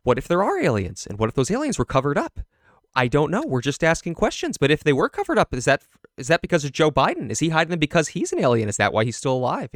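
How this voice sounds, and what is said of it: Imitates another person's voice. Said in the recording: “your accuracy of this impression”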